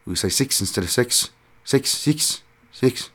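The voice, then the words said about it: Poor imitation of New Zealand accent. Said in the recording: “terrible New Zealand accent”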